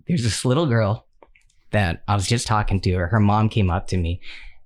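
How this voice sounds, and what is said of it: Emotional, choked-up voice. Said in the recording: “I'm, I'm getting emotional”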